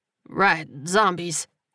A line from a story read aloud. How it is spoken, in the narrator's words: he muttered